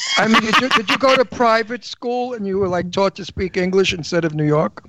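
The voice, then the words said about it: New York accent. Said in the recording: “I do. ... Rochester. Yeah. That's still not high enough to lose a New York accent.”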